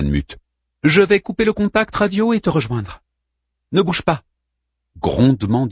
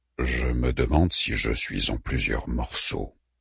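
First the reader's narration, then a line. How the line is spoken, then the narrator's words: Pensive voice. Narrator (French): dit Orfu d'une voix songeuse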